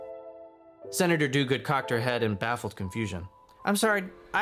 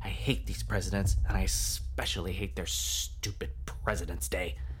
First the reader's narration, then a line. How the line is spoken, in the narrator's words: Finnegan muttered in response